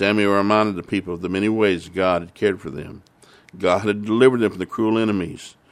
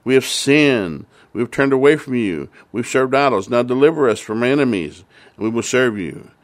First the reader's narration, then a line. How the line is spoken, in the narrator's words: the people cried of the Lord